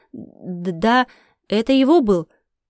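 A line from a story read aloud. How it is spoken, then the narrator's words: Cut off mid-word. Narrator (Russian): Госпожа Бертранда осеклась на полуслове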